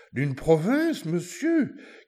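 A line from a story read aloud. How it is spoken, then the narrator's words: Shout. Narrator (French): crie l'archevêque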